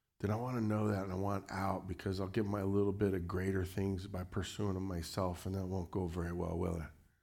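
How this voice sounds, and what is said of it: Changed voice from a cold. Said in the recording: “I got this little cold right now. I don't know if you can tell. I'm feeling mighty low. My voice has changed.”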